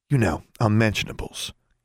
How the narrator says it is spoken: Constance whispered

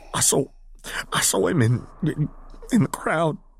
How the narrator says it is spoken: the man stammered out

